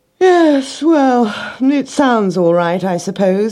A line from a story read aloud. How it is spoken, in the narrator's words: he yawned